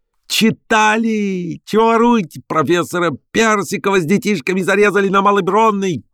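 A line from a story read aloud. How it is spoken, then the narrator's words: Crowd shouting. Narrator (Russian): кричали кругом в толпе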